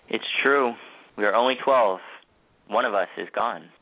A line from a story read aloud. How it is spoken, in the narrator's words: said, sadly